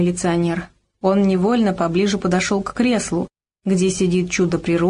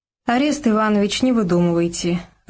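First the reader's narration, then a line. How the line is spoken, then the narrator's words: Laughing loudly. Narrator (Russian): расхохоталась гостья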